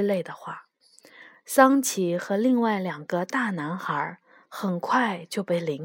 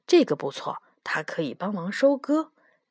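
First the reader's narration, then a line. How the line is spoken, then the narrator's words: Murmuring. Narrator (Chinese): 喃喃地说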